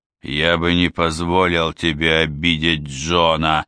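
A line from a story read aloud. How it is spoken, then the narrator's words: Gruff grumble. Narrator (Russian): грубовато проворчал Даннер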